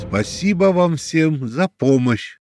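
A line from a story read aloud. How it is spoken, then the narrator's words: Very loud thanks. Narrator (Russian): очень громко поблагодарил всех присутствующих Альфред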